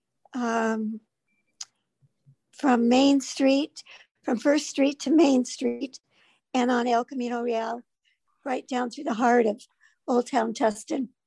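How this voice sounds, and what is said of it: Hoarse, fading voice. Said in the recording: “I don't know why I'm losing my voice.”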